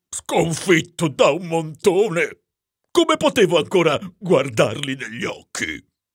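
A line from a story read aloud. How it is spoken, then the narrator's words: Desolate groan. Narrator (Italian): gemette il signor Troll in tono desolato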